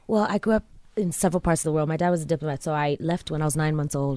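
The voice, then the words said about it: Mixed American and Tanzanian accent. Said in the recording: “I can pick up some American, but also I can pick up some Tanzanian things and some African... I also have a very heavy hissing S”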